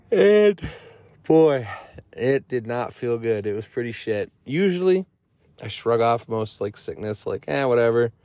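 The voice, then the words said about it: Cracky, squeaky sick voice. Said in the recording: “my cracky, squeaky voice ... I came down with a little something ... whatever this new flu is”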